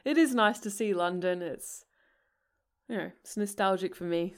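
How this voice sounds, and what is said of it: Slipping into an English accent. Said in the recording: “I feel like I've gone into an English accent now”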